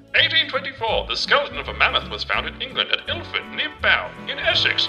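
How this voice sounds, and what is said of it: Funny old-timey transatlantic accent. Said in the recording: “I do it in a funny voice ... I'll put on my transatlantic accent”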